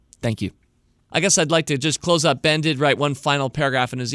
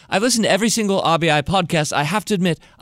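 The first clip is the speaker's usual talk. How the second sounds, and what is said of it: Put-on British accent. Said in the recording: “trot out my British accent”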